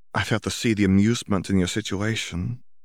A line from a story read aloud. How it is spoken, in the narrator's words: Grindelwald muttered, his face only a few inches from her own